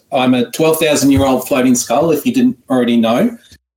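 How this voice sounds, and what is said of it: Australian accent. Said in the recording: “turn my horrible ancient Egyptian accent into an Australian one. If in case you were wondering, that's where I'm from”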